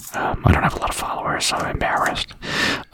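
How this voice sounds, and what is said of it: Whispering. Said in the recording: “whisper”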